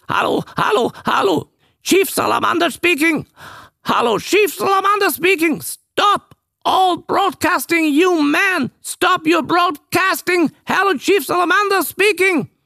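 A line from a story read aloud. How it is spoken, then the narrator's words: Terrible croaking frog voice, excited. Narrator (German): eine schreckliche, krächzende Stimme, und diese Froschstimme rief aufgeregt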